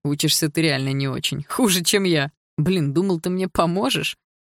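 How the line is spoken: Laughing young man. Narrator (Russian): сказал сквозь смех парень

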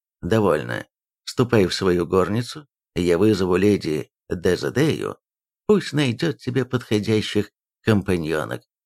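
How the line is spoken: Dry, curt. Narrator (Russian): Король сухо обронил

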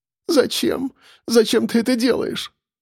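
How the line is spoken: Sobbing. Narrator (Russian): всхлипнула она

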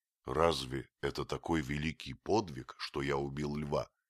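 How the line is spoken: Plain. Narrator (Russian): спросил я

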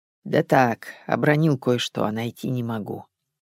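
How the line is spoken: Old man grumbling. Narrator (Russian): Старик проворчал

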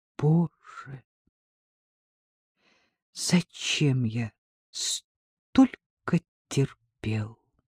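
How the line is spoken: Whispering. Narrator (Russian): Артем прошептал

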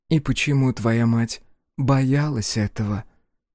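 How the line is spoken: Heavy sigh. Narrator (Russian): Диана тяжело вздохнула

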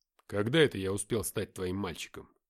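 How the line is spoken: Rough inner voice. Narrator (Russian): Мой мысленный голос прозвучал грубо

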